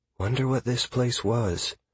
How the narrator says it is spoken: Sierra whispered

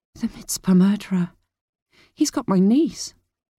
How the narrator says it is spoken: She whispered

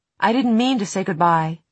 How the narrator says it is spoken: she said quickly

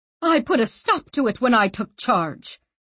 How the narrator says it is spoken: she said fiercely

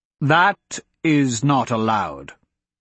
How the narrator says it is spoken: he responded firmly

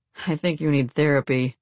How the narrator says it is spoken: Alex chuckled

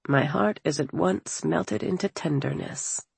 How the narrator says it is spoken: at the sight of his daughter, Alexander murmured

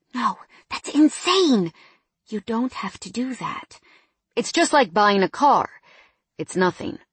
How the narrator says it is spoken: in shock, whispering

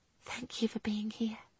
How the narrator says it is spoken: she whispered into his chest

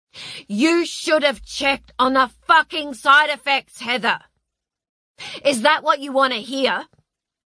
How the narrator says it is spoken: His voice rose on an ascending scale until he was shouting as loud as she'd ever heard him shout

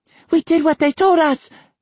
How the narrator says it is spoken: Kimiko cried

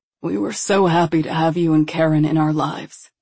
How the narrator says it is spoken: he said in an almost hoarse voice

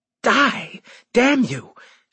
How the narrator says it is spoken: she hissed out

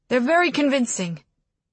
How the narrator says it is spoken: the accused man said quickly

